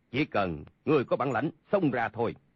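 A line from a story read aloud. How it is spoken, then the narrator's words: Cold. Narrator (Vietnamese): Sa Thông Thiên lạnh lùng nói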